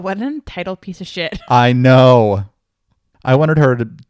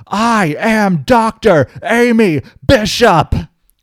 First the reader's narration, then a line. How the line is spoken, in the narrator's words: she punched her in the face and shouted